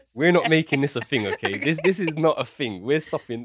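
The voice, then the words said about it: British, possibly Southeast London accent. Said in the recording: “He says it different than other British people ... I say my accent's very different ... Is it a Southeast London thing?”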